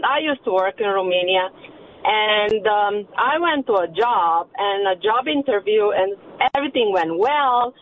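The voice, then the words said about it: Romanian accent. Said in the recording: “Are you using an accent right now, or did I just hear that weird? ... I am from Romania, actually. ... And I have an accent.”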